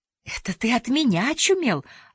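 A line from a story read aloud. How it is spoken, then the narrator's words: Joyful woman. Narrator (Russian): радостно сказала красавица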